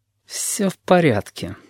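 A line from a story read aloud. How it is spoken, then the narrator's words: Irritated, through gritted teeth. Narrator (Russian): сквозь зубы говорю, потихоньку зверея от его приставаний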